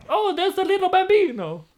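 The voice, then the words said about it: Put-on Italian accent voice. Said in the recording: “What was that voice? ... That was my Italian guy.”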